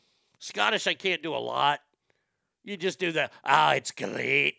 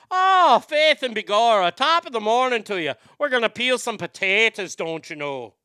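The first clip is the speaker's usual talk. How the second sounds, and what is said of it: Put-on Irish accent. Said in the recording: “with Irish, you start with faith and begorra.”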